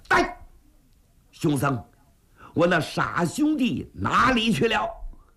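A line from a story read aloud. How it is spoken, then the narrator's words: Anxious loud demand. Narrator (Chinese): 秦二爷……这心里头非常着急，……高声喝问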